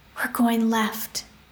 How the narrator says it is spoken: Rune whispered

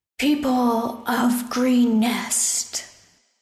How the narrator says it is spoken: a loud voice boomed from outside the keep

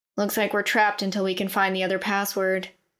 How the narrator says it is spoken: Keelan said

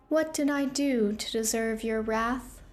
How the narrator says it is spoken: Evelyn asked, her voice emotionless

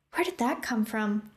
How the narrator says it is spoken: Opal gasped

